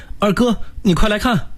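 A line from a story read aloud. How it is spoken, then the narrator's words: Uneasy sudden call. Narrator (Chinese): 三弟突然不安地叫我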